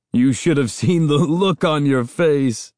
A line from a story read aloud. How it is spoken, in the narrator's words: Uncle Ben cried, and started laughing all over again